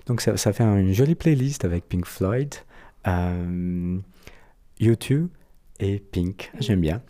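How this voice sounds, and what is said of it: Brazilian accent in French. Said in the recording (French): “Mon accent brésilien”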